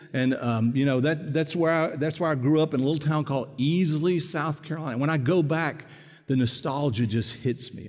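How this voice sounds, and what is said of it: South Carolina hick accent. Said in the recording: “South Carolina. That's where I was born and raised. You'll say, I recognize that hick accent.”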